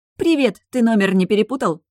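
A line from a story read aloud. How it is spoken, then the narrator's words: Giggling. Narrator (Russian): хихикнула я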